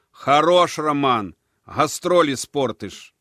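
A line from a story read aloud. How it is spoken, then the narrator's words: Shouted. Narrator (Russian): все-таки крикнул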